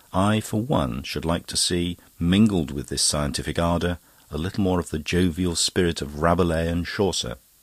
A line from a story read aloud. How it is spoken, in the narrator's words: Scogan sighed